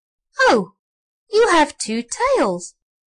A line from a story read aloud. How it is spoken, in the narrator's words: cried the nodding donkey